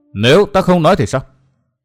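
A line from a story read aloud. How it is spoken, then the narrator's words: Cold voice. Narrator (Vietnamese): Phỉ Ngọc Hoàn nói giọng lạnh lùng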